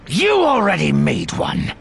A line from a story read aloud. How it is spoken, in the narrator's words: Desh snapped